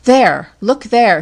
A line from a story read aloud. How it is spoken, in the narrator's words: she cried with a commanding accent